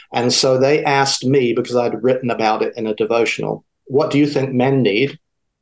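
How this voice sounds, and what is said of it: Southern English accent. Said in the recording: “your accent is not North Carolina or Florida ... my accent is from the South. I grew up in the South of England.”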